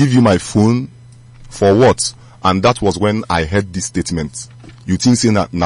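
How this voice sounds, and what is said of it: Usual voice. Nothing is said of it.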